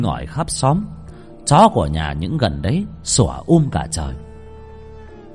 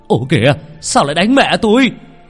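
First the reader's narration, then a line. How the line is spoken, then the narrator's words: Shout. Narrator (Vietnamese): Ông Thành la lên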